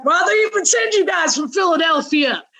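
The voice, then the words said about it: Put-on Texas accent. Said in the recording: “he's from Texas, so I can do this accent.”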